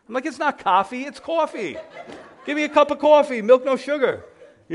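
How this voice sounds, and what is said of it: New York accent. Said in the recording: “"You a New Yorker?" ... our accent, right? Our speech gives us away. They know exactly where you're from.”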